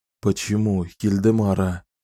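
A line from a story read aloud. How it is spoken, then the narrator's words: Whispering. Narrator (Russian): только и прошептал Далтон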